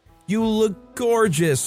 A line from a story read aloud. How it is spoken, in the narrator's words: stepmother called out